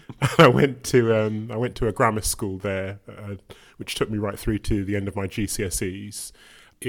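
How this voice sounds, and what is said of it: Birmingham accent. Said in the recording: “I grew up in Birmingham, which you can sometimes tell by the accent.”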